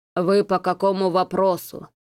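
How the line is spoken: Hoarse wheeze. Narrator (Russian): прохрипел директор

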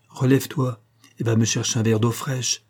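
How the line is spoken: Calm voice. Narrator (French): dit Madame Hortense d'une voix calme

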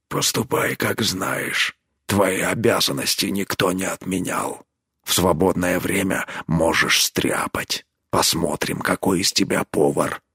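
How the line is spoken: Quiet reply. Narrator (Russian): Тот тихо ему ответил

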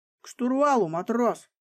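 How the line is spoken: Barked command. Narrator (Russian): рявкнул над ухом лейтенант

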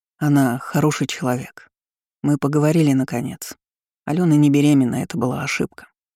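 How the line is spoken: Serious male tone. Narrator (Russian): серьезным тоном произнес мужчина

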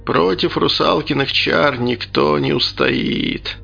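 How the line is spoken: Sad. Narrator (Russian): печально сказал Архип

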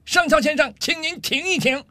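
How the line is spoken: Angry loud shout. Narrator (Chinese): 上尉气得涨红了脸，大声喊道

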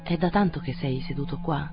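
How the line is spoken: Murmured question. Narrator (Italian): Domandò mormorando

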